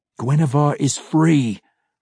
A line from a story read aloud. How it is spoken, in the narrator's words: Drizzt growled